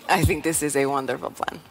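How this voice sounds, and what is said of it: Inconsistent put-on accent. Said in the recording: “My accent is not consistent.”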